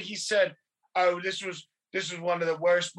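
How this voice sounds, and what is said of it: Bad put-on British accent. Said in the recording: “I'm doing a British gimmick again. I'm, it's so bad. I'm gonna stop with the accent.”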